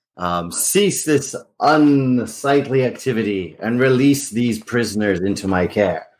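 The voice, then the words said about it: Booming imitation of a vampire lord. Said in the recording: “boom forth in my best imitation of him”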